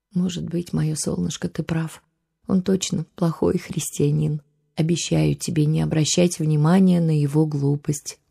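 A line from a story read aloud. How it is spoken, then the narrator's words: Sad gentle voice. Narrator (Russian): грустно улыбнулась мама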